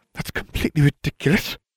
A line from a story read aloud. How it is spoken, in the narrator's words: Umbridge hissed